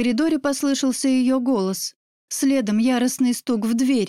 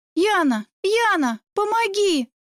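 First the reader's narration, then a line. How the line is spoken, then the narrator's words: Wild screaming. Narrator (Russian): заорала я дурниной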